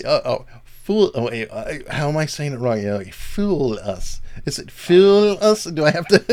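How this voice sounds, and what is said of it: American accent. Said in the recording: “your accent ... you American person with your Americanisms”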